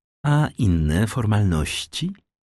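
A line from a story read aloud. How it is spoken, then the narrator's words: Timid question. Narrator (Polish): zagadnął nieśmiało Danglars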